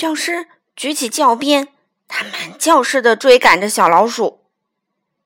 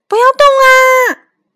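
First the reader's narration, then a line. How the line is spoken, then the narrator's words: Shouting teacher. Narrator (Chinese): 女教师叫道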